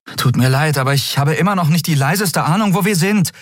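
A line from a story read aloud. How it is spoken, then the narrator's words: Called out. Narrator (German): rief sie Nelen zu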